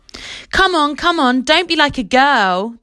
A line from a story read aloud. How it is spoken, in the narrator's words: the others shouted